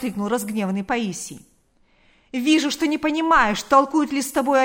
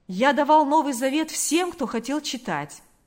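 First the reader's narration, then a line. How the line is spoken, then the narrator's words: Clear ringing voice. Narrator (Russian): произнес он чистым звонким голосом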